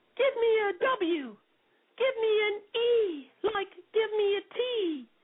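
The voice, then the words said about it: Girly British Valley Girl voice. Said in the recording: “some other like girly voice ... Valley Girl voice ... your British Valley voice”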